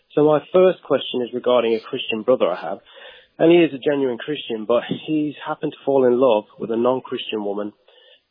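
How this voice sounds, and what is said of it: English accent. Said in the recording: “that's the strangest Texas accent I've ever heard ... I'm originally from England”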